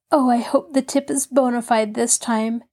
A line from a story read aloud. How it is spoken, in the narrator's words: Nancy sighed